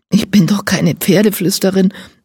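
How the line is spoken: Hoarse answer. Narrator (German): antwortet sie heiser

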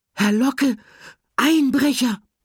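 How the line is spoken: Excited squeak. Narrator (German): piepste ganz aufgeregt

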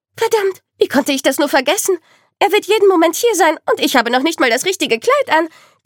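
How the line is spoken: Panicked squeak. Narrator (German): quiekte sie panisch

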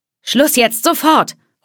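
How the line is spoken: Hostess calling out. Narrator (German): ruft die Gastgeberin

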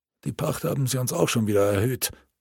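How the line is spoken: Peasant grumbling. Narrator (German): fiel ein zweiter Bauer brummend ein

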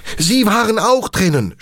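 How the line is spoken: Shouted. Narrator (German): schrie

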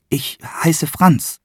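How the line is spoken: Relieved, no longer squeaky. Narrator (German): sagte der Franz, war erleichtert, dass er nicht mehr piepsen musste

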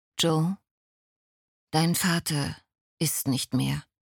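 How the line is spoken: Plain. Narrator (German): sagte Bram

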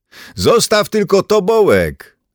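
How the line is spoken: Calling after someone. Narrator (Polish): zawołał mu w ślad Gerd

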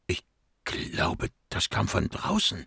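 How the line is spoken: Whispering. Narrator (German): wisperte Monin

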